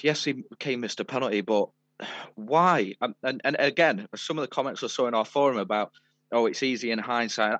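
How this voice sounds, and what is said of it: Breathless, unwell-sounding voice. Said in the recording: “running out of breath because I'm really poorly”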